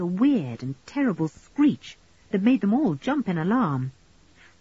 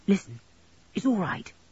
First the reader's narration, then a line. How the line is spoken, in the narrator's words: whispered back Julian